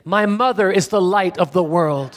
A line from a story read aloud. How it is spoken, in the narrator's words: The child beamed with great feeling in a loud, clear voice, and then he said